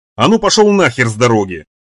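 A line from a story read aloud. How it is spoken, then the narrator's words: Sharp shout. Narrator (Russian): прикрикнул конвоир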